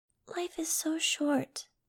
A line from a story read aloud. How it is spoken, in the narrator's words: Angel said sadly